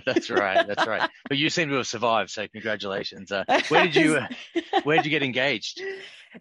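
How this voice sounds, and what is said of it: Australian accent. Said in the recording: “you're Australian, correct? ... That's right. The accent's a giveaway.”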